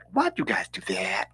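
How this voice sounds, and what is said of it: Mocking white woman voice. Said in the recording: “I'm gonna do the white Karen voice, the white woman voice.”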